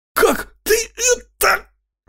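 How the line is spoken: Breathless exhale. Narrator (Russian): Выдохнул он после третьего удара

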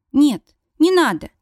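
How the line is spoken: Quick reply. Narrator (Russian): быстро отвечает она

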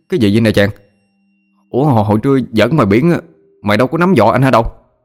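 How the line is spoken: Startled stammer. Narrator (Vietnamese): Nó trợn mắt lắp bắp

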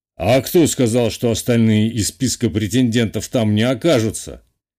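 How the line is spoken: Snorting. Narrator (Russian): хмыкнул Самойлов

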